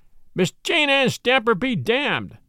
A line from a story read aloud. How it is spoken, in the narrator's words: I shrieked